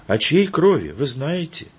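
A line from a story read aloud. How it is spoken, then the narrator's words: Sad old woman asking. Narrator (Russian): грустно спросила бабушка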